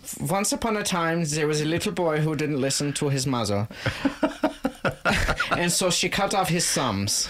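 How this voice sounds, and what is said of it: Good put-on German accent. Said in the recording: “I did a good job with the German accent... I think you did. Yeah, it was much better than mine”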